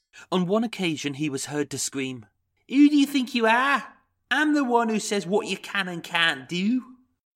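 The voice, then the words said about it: Poor Liverpudlian impression of John Sweeney. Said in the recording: “This is my Liverpudlian impression of John Sweeney. ... Awful. Awful, awful, awful. Really bad. Really piss poor.”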